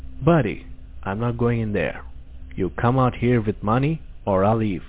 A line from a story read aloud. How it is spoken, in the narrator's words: I said firmly with confidence